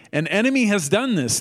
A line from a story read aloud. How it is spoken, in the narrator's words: the farmer exclaimed